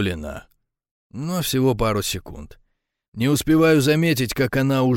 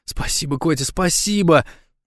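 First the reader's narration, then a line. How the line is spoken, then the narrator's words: Squealing with joy. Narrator (Russian): завизжала от счастья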